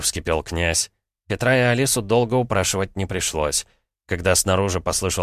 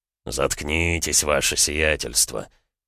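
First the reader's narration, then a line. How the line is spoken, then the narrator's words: Grumbling with groans. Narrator (Russian): проворчал менталист, кряхтя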